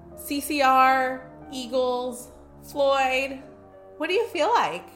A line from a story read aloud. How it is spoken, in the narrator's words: she called out